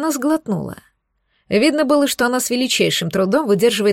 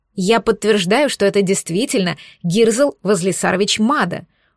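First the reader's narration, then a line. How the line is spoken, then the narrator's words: Confident declaration. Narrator (Russian): уверенным тоном заявила Лана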